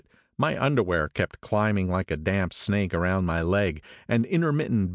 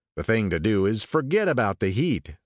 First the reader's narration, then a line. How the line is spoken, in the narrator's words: said Tom impatiently